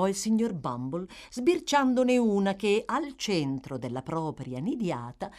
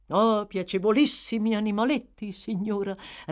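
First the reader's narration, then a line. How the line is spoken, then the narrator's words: Approving reply. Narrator (Italian): replicò il signor Bumble in tono di approvazione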